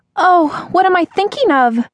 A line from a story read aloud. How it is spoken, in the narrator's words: cried out